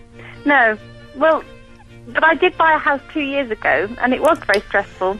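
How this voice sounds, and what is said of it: Young, childlike sounding voice. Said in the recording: “you sound like you're 12 years old ... you sound like a child”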